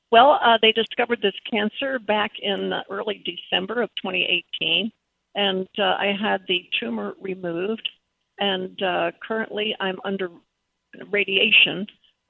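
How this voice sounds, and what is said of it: Froggy, weak voice. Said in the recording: “my voice sounds a little froggy, a little weak,”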